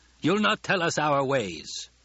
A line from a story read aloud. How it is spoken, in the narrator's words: Jameis snapped